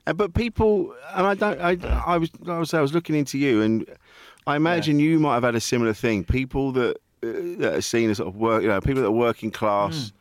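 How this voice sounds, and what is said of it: Southeast London English accent. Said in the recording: “your accent, where you said your accent is like where everyone on a stag night sounds like ... I grew up in sort of Kent, southeast London, that area ... this exotic accent”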